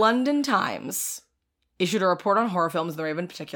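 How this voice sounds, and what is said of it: Usual voice. Nothing is said of it.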